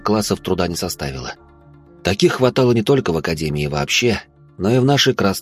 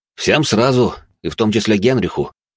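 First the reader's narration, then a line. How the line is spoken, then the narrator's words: Snorting. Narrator (Russian): хмыкнул я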